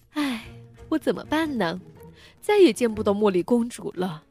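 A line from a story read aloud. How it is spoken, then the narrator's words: Troubled sigh. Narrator (Chinese): 阿拉丁苦恼的叹气道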